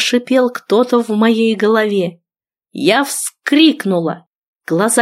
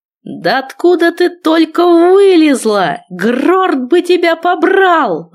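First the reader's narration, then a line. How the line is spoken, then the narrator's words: Roared. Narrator (Russian): взревел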